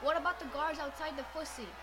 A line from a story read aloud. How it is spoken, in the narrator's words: One shouted